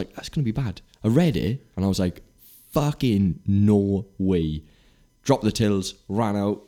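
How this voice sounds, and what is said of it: Usual voice. Nothing is said of it.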